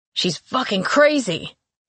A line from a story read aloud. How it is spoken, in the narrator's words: he shouted